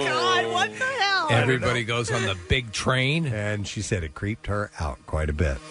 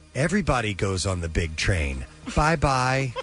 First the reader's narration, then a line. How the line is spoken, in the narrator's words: solemnly and said